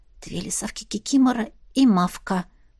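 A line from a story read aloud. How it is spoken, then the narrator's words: Whisper. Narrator (Russian): прошептала Марьяна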